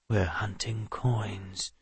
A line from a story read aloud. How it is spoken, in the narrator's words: Lomo whispered